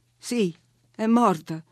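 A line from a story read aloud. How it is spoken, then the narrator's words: Holding back sobs. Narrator (Italian): risposi, tenendo a freno i singhiozzi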